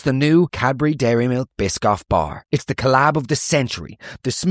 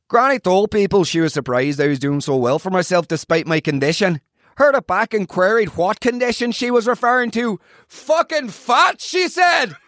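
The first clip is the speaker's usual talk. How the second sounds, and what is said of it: Put-on northern English accent. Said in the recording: “accent will I do for this? You just name an accent. ... Let's go for a northern accent.”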